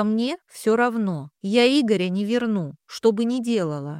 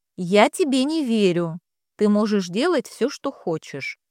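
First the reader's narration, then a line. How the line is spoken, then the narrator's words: Calm. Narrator (Russian): спокойно сказала Надя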